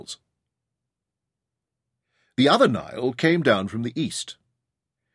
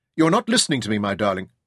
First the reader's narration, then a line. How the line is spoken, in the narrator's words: said her father sharply